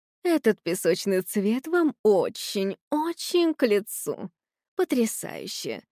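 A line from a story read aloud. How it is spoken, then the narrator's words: Cooing. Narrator (Russian): продолжала ворковать герцогиня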